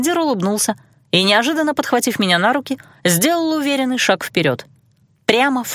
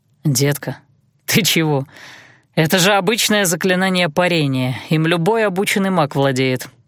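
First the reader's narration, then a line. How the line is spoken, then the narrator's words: Amused snort. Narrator (Russian): хмыкнул Айландир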